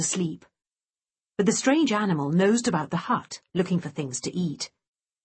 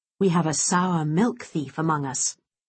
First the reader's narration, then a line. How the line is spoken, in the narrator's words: he said gravely